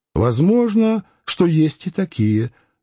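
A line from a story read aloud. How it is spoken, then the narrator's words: Calm agreement. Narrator (Russian): спокойно согласилась она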